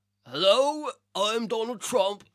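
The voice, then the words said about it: Imitates another person's voice. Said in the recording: “my best Donald Trump impression”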